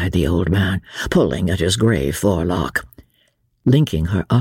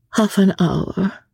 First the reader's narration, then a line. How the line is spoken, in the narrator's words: she said, looking wistfully out to sea